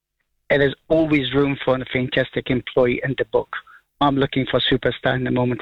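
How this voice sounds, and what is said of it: Speaks with a noticeable accent. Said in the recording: “A lot of people know my voice, probably know my accent.”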